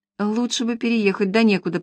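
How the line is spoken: Muttered with silly smirk. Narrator (Russian): пробормотала Маша с дурацкой усмешкой

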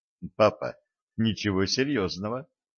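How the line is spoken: Calm report. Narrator (Russian): спокойно начал свой доклад Семен

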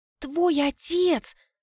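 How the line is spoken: Whispered question. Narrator (Russian): Спрашиваю шепотом

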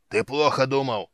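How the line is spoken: Yelled. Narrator (Russian): заорал Хан

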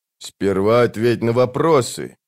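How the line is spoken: Low voice. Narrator (Russian): низким голосом сказал Калам

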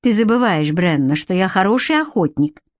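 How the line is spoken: Surprisingly calm. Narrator (Russian): ответил он на удивление спокойно

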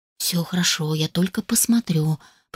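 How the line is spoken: Barely audible whisper. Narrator (Russian): прошептал едва слышно

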